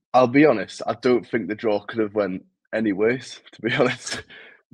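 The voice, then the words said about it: Newcastle (Geordie) English accent. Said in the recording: “from my accent, I'm actually from Newcastle”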